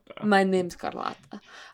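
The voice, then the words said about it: Put-on foreign accent. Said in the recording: “Like, the accent.”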